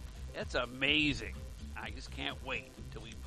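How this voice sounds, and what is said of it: Usual voice. Nothing is said of it.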